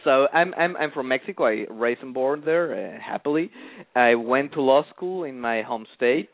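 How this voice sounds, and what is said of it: Mexican Spanish accent in English. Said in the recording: “I'm Mexican, as your listeners will hear from my accent. I cannot hide that part of.”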